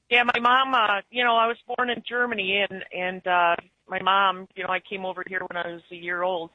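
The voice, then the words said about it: Noticeable northern US accent. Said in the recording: “It's definitely a noticeable accent.”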